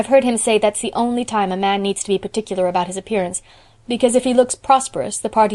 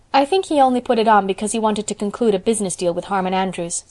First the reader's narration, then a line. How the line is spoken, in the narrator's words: said Anne